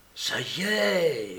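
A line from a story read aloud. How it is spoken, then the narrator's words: Murmured to companion. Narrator (French): murmura à sa compagne ravie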